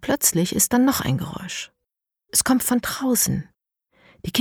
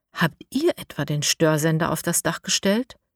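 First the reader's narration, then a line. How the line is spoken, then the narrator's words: Plain question. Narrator (German): fragt Mara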